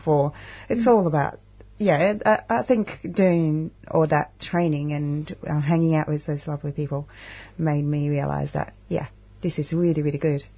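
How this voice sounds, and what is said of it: Non-native English accent. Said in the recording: “English is not my first language ... the way I talk and with my accent ... my accent”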